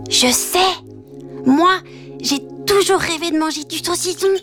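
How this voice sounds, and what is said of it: Playful whisper. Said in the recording (French): “dans un souffle coquin, Petit Lapin chuchota”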